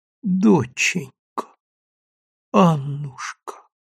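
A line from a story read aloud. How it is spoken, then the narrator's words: Muffled faltering sick woman. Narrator (Russian): глухо и невнятно, запинаясь, сказала больная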